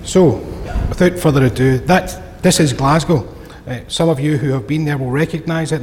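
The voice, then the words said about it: Glaswegian Scottish accent. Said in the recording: “"Have you been to Glasgow?" It means that some of you will understand my accent.”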